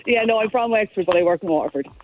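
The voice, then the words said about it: Exaggerated Irish regional accent. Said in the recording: “You're hamming up the accent, ... Now you're hamming it up now on purpose.”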